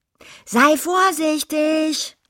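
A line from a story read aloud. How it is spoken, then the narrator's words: Calling after someone. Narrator (German): rief sie ihm nach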